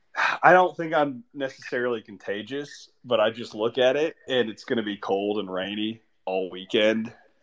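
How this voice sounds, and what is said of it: Sick-sounding voice. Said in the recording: “I've already been sick ... you can hear it in my voice.”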